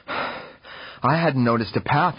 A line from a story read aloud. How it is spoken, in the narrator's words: replied, panting